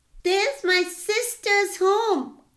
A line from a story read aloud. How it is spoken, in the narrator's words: cried Nani